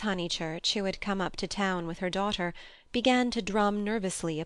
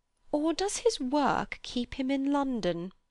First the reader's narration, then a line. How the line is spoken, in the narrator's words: said Miss Teresa, the more acute and less kindly of the two sisters